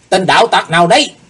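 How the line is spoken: Two men shouting together. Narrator (Vietnamese): Hai tên cao thủ đồng quát lên

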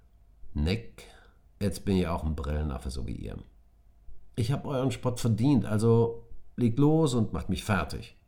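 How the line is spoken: Said very calmly. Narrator (German): Tom ganz ruhig sagte

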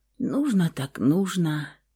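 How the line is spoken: Hoarse from sleep and tears. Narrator (Russian): хриплым после сна и слез голосом сказала Александра

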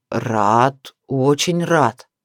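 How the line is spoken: Lazy drawl. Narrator (Russian): лениво протянул мужчина

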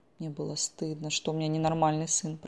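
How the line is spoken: Tearful whisper. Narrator (Russian): прошептала, глотая слезы

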